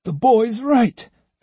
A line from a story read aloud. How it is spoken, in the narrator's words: exclaimed Sado, his face brightening